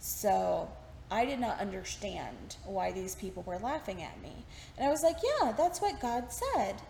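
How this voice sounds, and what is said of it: Mild Texas country accent. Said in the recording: “my accent has come out a little bit. When I talk about my time in Texas ... this is much milder than my accent used to be. As a country girl, heavy accents”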